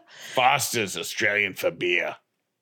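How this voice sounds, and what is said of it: Put-on Australian accent, raspy. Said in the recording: “In that accent? Why do I feel like that's not ... Australian? ... That's Australian. ... Isn't there a character in Family Guy that smokes way too much and has that voice? That's who you sound like.”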